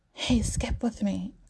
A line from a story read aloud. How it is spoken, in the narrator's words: Calissa whispers to him